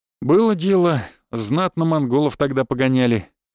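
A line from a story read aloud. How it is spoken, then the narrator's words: Snort. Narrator (Russian): хмыкнул Кречет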